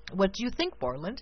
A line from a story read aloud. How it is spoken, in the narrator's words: asked the prince, anxiously